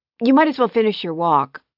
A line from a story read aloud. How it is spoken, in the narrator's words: she blurted out